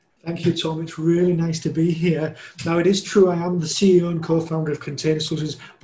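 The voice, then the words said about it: Yorkshire English accent. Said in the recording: “I'm not Scottish. I'm from Yorkshire... I definitely am from Yorkshire, and that's why accent is slightly different.”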